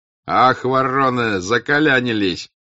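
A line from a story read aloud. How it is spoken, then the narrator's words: Shouting. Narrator (Russian): кричали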